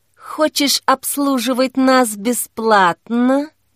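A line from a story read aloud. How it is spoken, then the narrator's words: Hissing. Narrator (Russian): зашипел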